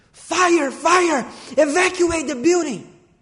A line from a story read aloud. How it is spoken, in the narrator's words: he starts screaming